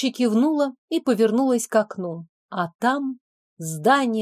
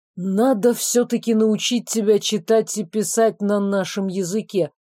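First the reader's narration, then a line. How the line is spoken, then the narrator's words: Boss grumbling. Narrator (Russian): проворчало начальство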